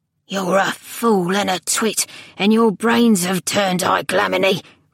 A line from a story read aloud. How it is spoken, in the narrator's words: rasped the old man